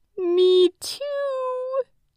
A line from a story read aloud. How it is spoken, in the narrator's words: Little Hedgehog squealed with delight